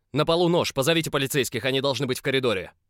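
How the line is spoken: Stern command, German man. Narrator (Russian): строго велел немец

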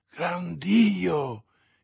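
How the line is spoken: Shocked exclamation. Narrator (Italian): esclamò D'Artagnan

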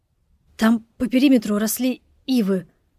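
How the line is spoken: Stammering, enthusiastic. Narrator (Russian): заикаясь, увлеченно проговорил Карташов

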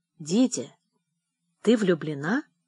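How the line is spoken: Quiet, fearful question. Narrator (Russian): тихо спросил, чувствуя, как весь начинает холодеть

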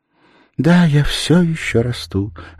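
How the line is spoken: Sad smiling reply. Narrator (Russian): ответила грустно улыбаясь

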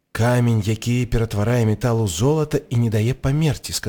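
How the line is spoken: Plain. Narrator (Belarusian): сказаў Гары

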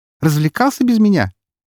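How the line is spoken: Cheerful snort, young woman. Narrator (Russian): весело фыркнула девушка

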